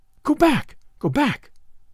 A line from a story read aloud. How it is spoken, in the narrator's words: cried